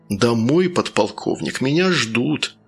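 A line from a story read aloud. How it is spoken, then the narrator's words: Sad. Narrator (Russian): печально добавил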